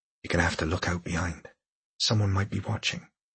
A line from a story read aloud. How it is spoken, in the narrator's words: said quietly